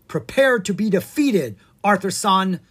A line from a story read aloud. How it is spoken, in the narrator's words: the small ninja cried